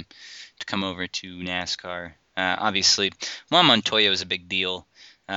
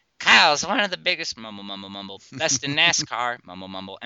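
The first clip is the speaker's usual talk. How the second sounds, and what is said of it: Mock Southern accent. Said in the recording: “In his best Southern accent”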